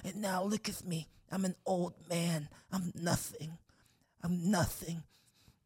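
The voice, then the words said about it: Imitates another person's voice. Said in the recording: “That was a good mic impression.”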